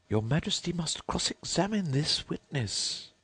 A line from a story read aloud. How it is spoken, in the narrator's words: the White Rabbit, who said in a low voice